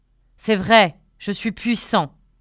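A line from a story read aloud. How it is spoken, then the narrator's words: Thundering animal voice. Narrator (French): avait tonné l'animal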